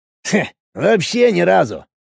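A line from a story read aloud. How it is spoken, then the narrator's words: Snorting chuckle. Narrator (Russian): хмыкнул Крисп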